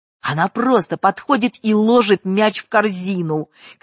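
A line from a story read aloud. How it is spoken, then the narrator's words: Wide-eyed shouting. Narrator (Russian): кричал он, вытаращив глаза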